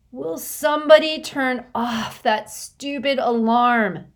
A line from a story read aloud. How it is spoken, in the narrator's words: Constance moaned in her sleep